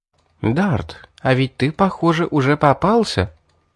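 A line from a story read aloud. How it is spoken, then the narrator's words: Soft laugh. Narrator (Russian): тихонько рассмеялась Кара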